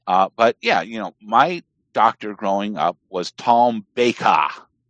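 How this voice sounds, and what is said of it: Put-on Cockney English accent. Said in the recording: “that's a Cockney accent you're affecting ... My English accent is probably... Probably about as good as Millennial Woe's American accent would be.”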